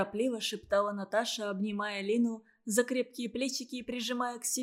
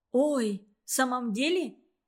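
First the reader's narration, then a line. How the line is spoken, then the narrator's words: Cried out, just waking. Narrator (Russian): вскрикнула та, сразу просыпаясь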